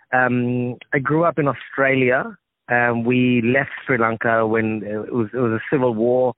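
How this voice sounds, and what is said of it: Australian accent. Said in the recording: “that's my accent, it's an Australian accent.”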